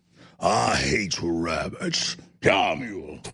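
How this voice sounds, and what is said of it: Yosemite Sam cartoon voice impression. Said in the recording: “You know, I can do Yosemite Sam. ... That's pretty good, actually, yeah.”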